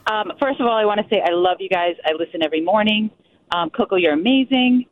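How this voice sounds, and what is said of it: Sick, congested voice. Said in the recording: “Excuse my voice. I have a cold.”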